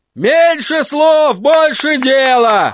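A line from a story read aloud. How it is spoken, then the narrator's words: Shouted call. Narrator (Russian): выкрикнул кто-то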